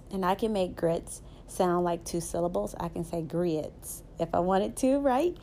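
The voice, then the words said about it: Southern American accent. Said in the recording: “I'm a Southern girl, as you can tell by my accent. I am very Southern”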